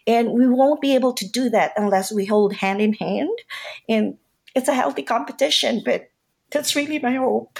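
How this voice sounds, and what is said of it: Emotional, choked-up voice. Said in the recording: “I'm sorry for getting emotional”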